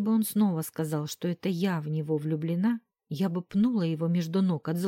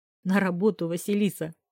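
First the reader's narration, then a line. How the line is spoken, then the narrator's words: Light laugh. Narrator (Russian): слегка рассмеялся Костя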